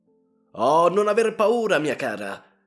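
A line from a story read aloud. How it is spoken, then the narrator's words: Shouted, showing off courage. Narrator (Italian): gridò alle nostre spalle Ivan Matveich per far mostra del proprio coraggio alla consorte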